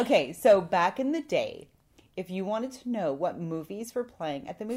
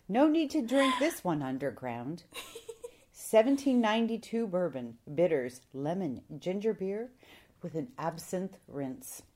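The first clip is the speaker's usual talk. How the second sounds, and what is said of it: Sultry, seductive speaking voice. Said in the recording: “That's a sexy voice.”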